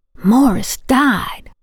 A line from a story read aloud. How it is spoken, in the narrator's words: Louise hissed